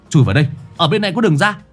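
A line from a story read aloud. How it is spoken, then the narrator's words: Sudden loud shout. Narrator (Vietnamese): Khải bỗng nhiên hét lớn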